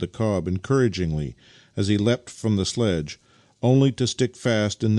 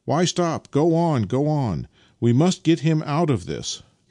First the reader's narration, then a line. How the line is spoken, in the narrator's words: Nikita shouted to him